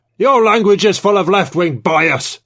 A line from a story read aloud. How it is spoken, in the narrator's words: Trevithick bellowed